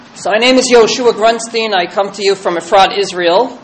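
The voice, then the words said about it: Speaker's own non-Israeli accent. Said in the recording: “As you can hear from my accent, I didn't originate there.”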